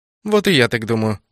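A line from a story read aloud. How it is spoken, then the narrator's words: Cold, sharp, haughty. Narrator (Russian): холодно кивнула Нова, превращаясь в себя прежнюю, резкую, неприступную, высокомерную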